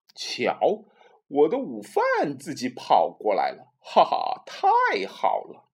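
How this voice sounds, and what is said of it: Scary monster voice. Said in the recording (Chinese): “一个可怕的声音说”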